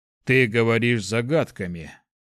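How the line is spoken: Gloomy. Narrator (Russian): мрачно заметил Борг

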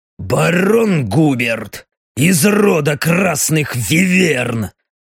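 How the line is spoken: Through clenched teeth. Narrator (Russian): Сжав зубы, процедил капитан

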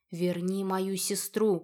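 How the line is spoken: Barely audible strained whisper. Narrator (Russian): прошептала я едва слышно, слова дались с большим трудом

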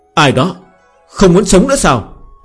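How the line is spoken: Smiling. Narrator (Vietnamese): Tiêu Sắt mỉm cười

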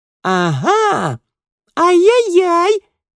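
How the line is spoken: Squeaky. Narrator (Russian): запищала другая

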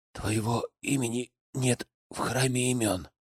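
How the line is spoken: Whisper. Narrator (Russian): прошептал

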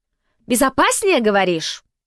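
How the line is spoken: Near-falsetto shout. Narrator (Russian): почти фальцетом выкрикнул король

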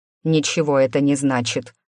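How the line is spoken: Irritated. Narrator (Russian): раздраженно проговорил Олег

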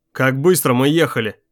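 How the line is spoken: Plain. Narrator (Russian): спросил Блейк

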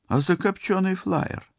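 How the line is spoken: Indignant reminder. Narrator (Russian): возмущенно напомнил пилот

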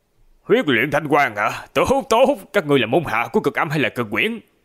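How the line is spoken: Angry laughing question. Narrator (Vietnamese): rung lên nhẹ nhẹ, tiếp theo cười rộ giận dữ hỏi

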